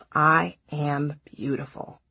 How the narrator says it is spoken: whisper to myself

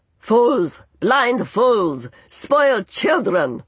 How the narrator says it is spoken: someone bellowed, voice drowned out by one even more thunderous

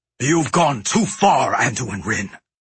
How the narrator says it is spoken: Greymane snarled

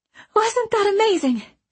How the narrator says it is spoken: she gasped

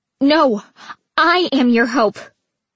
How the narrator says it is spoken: Trina shouted

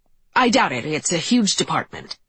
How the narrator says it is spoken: Eric said sharply, as though he wasn't going to bother his wife with my absurd theories

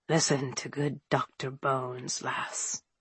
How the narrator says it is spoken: the miserable fellow croaked

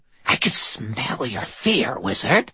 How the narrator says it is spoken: she rasped

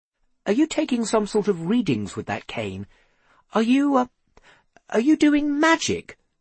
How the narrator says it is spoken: Seth asked timidly

